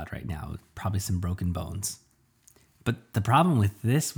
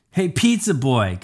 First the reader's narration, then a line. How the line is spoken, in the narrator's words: Kyle yelled